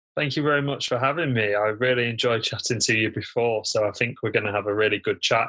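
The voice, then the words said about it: British accent. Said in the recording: “I love your accent. I love British accent”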